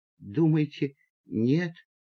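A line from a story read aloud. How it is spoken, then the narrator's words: Whispered. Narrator (Russian): прошептал Боря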